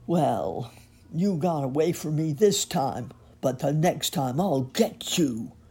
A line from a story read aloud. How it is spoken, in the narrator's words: growled the dog